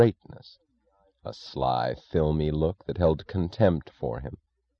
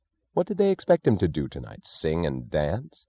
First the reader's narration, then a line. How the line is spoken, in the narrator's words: He snapped the question angrily